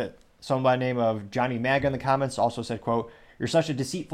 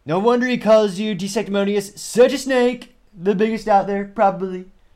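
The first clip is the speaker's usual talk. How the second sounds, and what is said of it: Poor impression of another person's voice. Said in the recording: “we should probably do a Trump accent... Perhaps the worst Trump impression you've heard all year”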